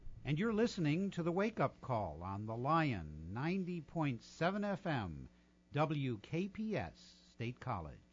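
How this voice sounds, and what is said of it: Announcer-style radio DJ voice. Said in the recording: “In my old radio voice.”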